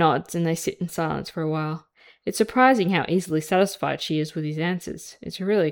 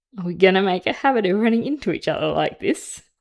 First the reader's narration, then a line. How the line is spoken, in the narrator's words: said with a laugh